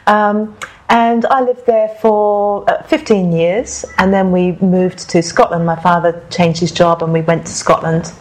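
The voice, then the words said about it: English accent. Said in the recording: “So that's a British accent. ... somewhere in there is a British accent, an English accent even.”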